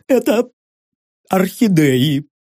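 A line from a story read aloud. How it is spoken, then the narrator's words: Sobbing. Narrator (Russian): всхлипнула пухлая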